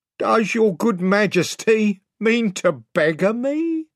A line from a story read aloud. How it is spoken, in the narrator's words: whined Pug